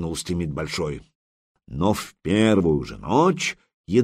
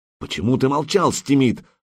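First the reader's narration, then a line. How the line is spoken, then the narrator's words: Exclamation. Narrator (Russian): воскликнул Сигурд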